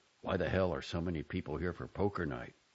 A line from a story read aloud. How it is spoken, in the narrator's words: with a muttered aside